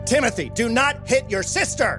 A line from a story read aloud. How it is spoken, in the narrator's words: Jack yells